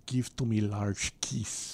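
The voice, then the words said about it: Put-on Russian accent. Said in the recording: “My only Russian accent is”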